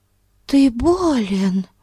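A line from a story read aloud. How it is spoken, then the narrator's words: Alarmed exclamation. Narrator (Russian): воскликнула она с тревогой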